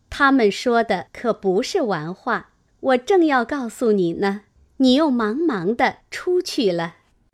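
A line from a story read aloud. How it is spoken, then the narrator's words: Laughing. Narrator (Chinese): 宝钗笑道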